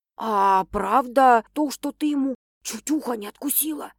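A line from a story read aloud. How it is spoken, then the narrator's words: Whispered question. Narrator (Russian): шепотом спрашивает Лара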